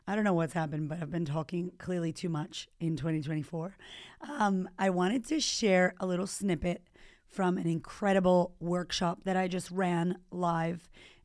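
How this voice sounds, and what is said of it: Hoarse voice. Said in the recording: “My voice is a little bit hoarse.”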